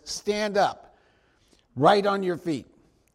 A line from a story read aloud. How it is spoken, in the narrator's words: Paul said in a loud voice